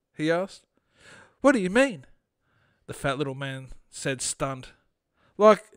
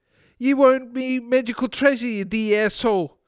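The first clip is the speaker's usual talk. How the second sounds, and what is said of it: Bad mocking Irish accent. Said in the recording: “mockingly continued in a terrible Irish accent.”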